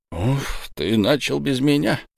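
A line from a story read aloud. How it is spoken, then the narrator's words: Low disapproving mutter. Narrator (Russian): пробормотал низкий голос, в тоне которого слышалось неодобрение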